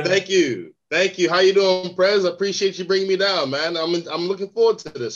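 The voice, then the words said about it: American accent. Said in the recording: “He says he's an American... I genuinely believe that he bought that American accent after he watched Netflix”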